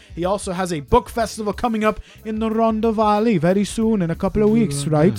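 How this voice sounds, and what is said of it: Thick put-on Welsh accent. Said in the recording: “With a really thick Welsh accent. ... how was my Welsh accent? ... It was really good.”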